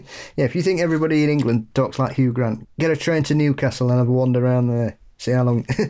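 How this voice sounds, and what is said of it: Usual voice. Nothing is said of it.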